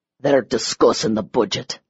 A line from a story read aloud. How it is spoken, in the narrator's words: he advised in a deep, husky brogue